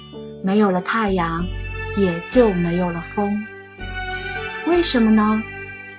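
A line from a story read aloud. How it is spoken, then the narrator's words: Puzzled question. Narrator (Chinese): 人们不解地问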